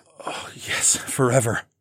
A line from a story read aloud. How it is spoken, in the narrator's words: I groaned